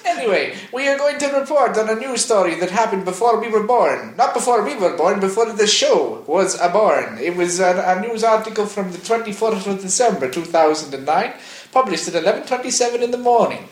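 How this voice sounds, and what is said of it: Attempted Italian accent, Mario-like. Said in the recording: “I'm going to do it in an accent. I know nothing. I do not know if this is a proper accent for an Italian person ... it sounds like Mario ... That does not sound Italian.”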